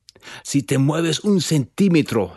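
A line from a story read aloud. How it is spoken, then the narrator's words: Growl. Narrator (Spanish): le gruñó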